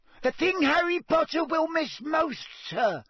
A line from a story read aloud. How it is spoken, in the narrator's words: squeaked Dobby